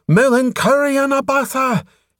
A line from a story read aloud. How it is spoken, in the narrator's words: Shouting